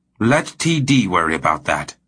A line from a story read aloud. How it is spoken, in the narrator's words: Pethel said savagely